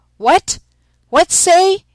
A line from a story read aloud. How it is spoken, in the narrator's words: Putting his hand to his mouth, he shouted